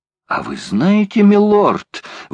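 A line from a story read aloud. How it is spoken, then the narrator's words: Exclaimed. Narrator (Russian): воскликнул Паганель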